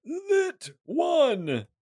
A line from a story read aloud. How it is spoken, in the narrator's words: yell out